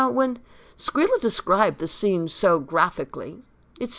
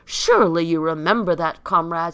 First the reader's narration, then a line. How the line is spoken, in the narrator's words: exclaimed Squealer